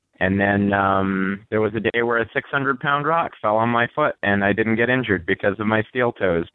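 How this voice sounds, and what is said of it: Tired-sounding voice. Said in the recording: “that's why I sound so tired ... I think he's just tired”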